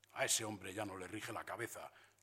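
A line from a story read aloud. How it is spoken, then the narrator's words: Commander grumbling. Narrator (Spanish): rezongó el comandante de puesto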